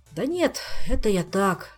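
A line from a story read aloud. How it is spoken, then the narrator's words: Sighing. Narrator (Russian): вздохнул он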